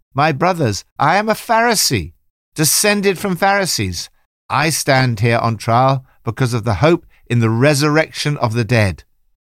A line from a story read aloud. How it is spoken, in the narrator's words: Paul called out in the Sanhedrin